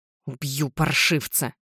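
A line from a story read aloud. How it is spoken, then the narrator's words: Muttered through teeth. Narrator (Russian): бормочу сквозь зубы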